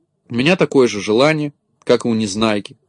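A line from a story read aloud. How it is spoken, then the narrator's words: Plain. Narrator (Russian): сказала Кнопочка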